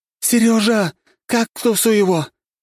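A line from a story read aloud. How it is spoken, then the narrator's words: Shouting. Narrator (Russian): закричала Николь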